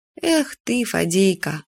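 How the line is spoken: Sighing. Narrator (Russian): вздохнула Юля

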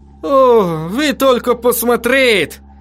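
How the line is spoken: Exclaiming. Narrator (Russian): воскликнул он

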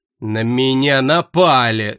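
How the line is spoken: Angry mocking mimicry. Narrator (Russian): зло передразнил он меня

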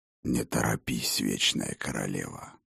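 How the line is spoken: Hoarse low voice from behind. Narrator (Russian): Хриплый и низкий голос раздался у нее из-за спины

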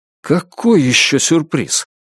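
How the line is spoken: Panicked exclamation. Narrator (Russian): в панике воскликнул Джейк

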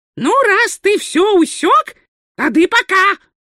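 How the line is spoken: Snapping retort. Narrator (Russian): огрызнулся уродец

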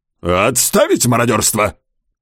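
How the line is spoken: Barked command. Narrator (Russian): Гаркнул генерал от инфантерии

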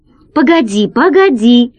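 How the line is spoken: Exclaiming. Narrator (Russian): воскликнул Гайдо

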